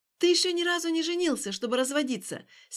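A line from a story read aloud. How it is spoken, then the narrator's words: Angry. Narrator (Russian): сердито ответила она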